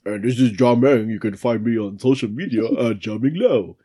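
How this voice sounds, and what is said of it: Imitates another person's voice. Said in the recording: “I don't think John Meng sounds like that. ... You sound exactly like John Meng. That was a great John Meng impression.”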